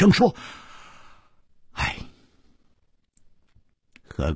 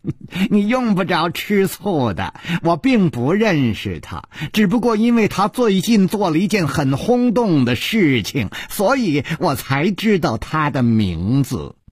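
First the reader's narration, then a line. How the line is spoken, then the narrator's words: Light laugh. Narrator (Chinese): 楚留香笑了笑说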